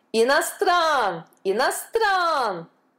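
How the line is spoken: Crowd yelling. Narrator (Russian): вопили индусы

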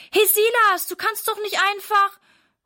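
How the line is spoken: Calling after, cut off. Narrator (German): ruft Sarah ihm hinterher, aber bevor sie ihren Satz beendet hat

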